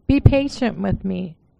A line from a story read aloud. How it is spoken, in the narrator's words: he begged